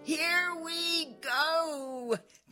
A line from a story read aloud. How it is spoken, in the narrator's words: they shouted